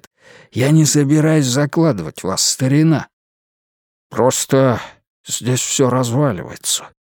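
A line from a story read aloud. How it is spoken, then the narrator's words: Crushed, dejected voice. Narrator (Russian): убитым голосом сказал Уитни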